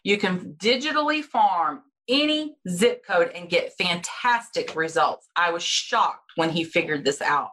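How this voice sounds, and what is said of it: Speaks with a noticeable accent. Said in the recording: “in case my accent threw anybody off”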